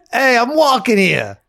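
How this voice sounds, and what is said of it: Put-on New York accent. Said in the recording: “No, that's my New York accent. ... Perfect. ... Oh, it was good. ... Spot on.”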